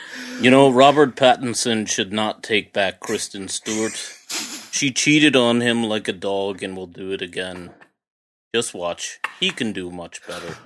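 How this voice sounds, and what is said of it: Imitates another person's voice. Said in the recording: “I thought Trump was in the room ... Such such a good Trump impression”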